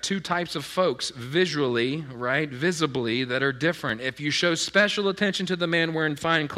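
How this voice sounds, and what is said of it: Usual voice. Nothing is said of it.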